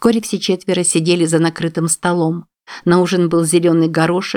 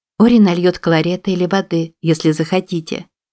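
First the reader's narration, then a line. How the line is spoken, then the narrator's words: Plain. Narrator (Russian): сказала Мадлен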